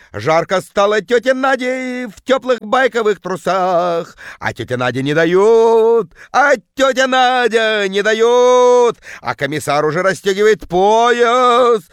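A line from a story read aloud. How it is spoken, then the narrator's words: Bellowing in terrible bass. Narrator (Russian): орала тетка жутким басом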